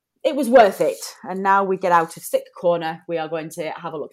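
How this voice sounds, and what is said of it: Hoarse, slightly congested voice. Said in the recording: “my voice is a little hoarse tonight and I'm a little bit sniffly ... I think I've come down with a chill”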